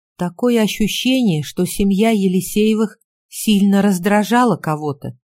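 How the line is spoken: Plain. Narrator (Russian): сказала я

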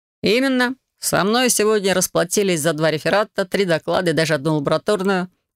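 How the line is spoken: Amused snort. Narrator (Russian): хмыкнул он

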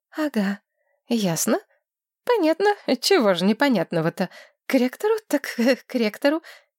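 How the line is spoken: Nervous giggle. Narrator (Russian): нервно хихикнула Маргарет

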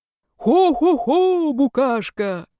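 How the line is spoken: Deep cheerful greeting. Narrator (Russian): Глубоким веселым голосом поприветствовал меня папа

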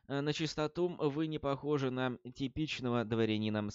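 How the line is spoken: Gentle, smiling. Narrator (Russian): сказал Роланд, мягко улыбнувшись

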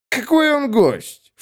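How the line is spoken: Snorted. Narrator (Russian): фыркнул парочка

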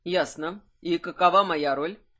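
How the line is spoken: Very even tone. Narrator (Russian): спросил Кайфат максимально ровным тоном

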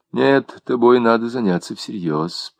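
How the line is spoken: Mutter. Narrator (Russian): пробормотал Люсьен

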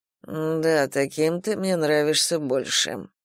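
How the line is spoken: Mutter. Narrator (Russian): пробормотал император

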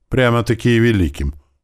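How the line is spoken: Snide teasing, hint of pride. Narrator (Russian): ехидно подначил ее Эрик, но чуткое ухо Арии без труда уловило нотки гордости в его голосе

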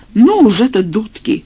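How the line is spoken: Exclamation. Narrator (Russian): воскликнул я

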